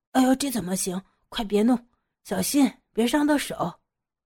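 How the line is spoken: Hurried, anxious. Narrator (Chinese): 老何急急忙忙地说

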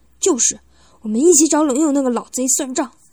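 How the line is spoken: Angry. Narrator (Chinese): 布森愤怒的说道

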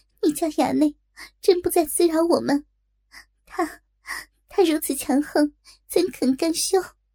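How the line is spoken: Tearful, angry. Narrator (Chinese): 锦儿泪眼朦胧，怒道

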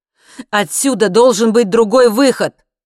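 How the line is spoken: Shout. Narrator (Russian): крикнул он

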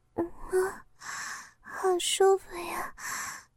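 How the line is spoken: Soft moaning murmur. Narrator (Chinese): 小花发出一声轻吟和喃喃的细语

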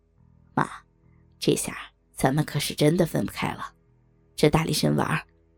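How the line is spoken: Wry laugh. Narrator (Chinese): 小明苦笑

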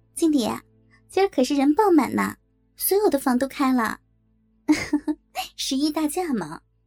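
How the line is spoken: Cheerful smiling. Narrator (Chinese): 小月笑着对我说

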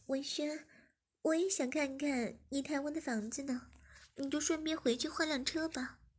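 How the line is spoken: Smiling. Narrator (Chinese): 诗雅笑了笑，便说

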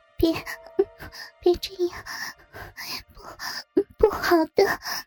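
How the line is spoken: Panting. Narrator (Chinese): 嘴里喘着气

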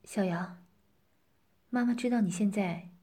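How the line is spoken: Calm, with a sigh. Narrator (Chinese): 他轻轻叹了口气，平静的对他说

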